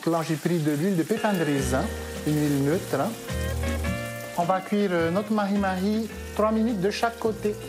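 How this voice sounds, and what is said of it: Melodious sing-song accent. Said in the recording (French): “Avec ce délicieux accent chantant”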